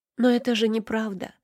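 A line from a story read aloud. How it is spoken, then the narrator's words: Whispering. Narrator (Russian): прошептала я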